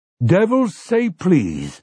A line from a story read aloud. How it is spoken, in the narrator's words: Overholser exclaimed